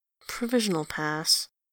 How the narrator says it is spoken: he mumbles

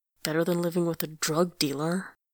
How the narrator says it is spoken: Angelos mutters

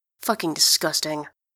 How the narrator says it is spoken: he mutters

